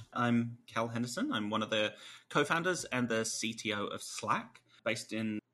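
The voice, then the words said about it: English accent. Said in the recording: “might tell from the accent, originally English”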